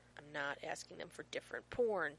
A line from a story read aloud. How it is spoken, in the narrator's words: John hisses, cheeks heating up